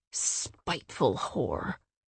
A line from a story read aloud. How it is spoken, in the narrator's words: growled